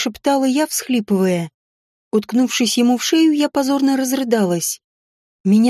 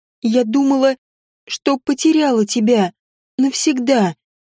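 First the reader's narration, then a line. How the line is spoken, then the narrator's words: Sobbing, strained. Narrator (Russian): выдавливала я между всхлипами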